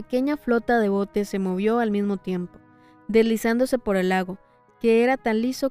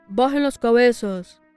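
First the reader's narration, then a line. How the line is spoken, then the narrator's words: Exclaimed. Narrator (Spanish): exclamó Hagrid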